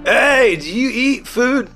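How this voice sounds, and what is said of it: Friendly shouted voice. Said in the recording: “shout at him in my friendliest voice”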